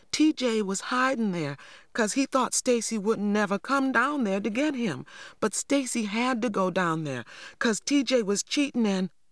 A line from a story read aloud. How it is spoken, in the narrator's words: I cried anxiously